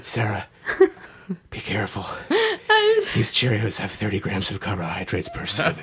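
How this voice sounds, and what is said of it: Paul Giamatti impression. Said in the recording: “Good Paul Giamatti impression.”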